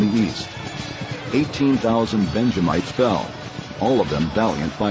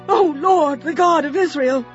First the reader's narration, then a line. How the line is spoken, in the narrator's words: they cried